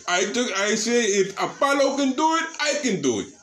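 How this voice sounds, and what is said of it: Put-on Italian-sounding accent. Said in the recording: “Why does your voice sound like that? ... You sound Italian right now.”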